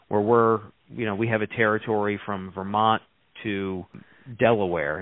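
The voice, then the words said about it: New York East Coast accent. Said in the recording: “I'm getting by the accent that you grew up in New York or on the East Coast.”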